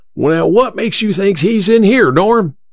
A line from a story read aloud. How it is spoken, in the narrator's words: Emma's father yelled again